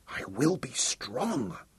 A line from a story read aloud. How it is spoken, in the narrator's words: whispered aloud